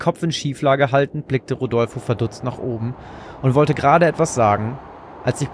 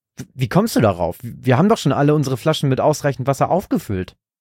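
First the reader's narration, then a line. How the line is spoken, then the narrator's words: Plain answer. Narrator (German): antwortete ihm Bert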